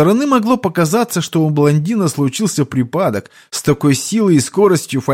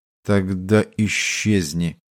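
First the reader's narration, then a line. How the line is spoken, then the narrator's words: Muttered through teeth. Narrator (Russian): процедил арахнит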